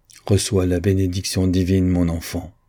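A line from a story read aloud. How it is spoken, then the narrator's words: Solemn. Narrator (French): dit-il d'un ton solennel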